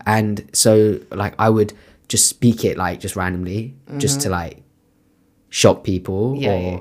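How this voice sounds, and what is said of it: British English accent. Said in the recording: “my accent is like so British.”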